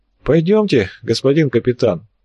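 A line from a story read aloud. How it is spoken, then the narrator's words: Sighing, disdainful voice. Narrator (Russian): вздохнул обладатель брезгливого голоса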